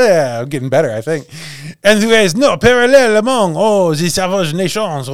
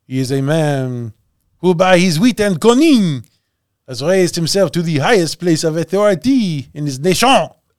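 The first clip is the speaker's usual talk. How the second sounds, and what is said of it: Put-on accent, inconsistent. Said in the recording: “doing the accent. ... It's been changing little by little every time.”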